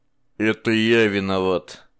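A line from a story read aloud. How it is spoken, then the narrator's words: Hollow colorless voice. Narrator (Russian): сказал наконец Аарон глухим бесцветным голосом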